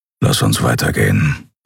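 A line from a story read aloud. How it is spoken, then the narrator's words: Grumbling mutter. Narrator (German): brummte er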